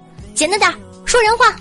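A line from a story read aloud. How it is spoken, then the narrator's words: Angry mother. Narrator (Chinese): 夏夏妈妈怒道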